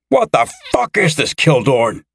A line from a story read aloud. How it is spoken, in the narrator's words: Dennis roared